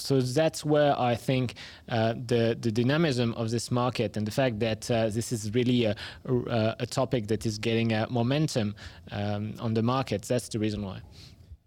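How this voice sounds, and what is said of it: Non-native English accent. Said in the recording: “our listeners could tell from your accent, you're not native here”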